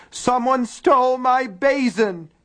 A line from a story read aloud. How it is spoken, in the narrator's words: he wailed again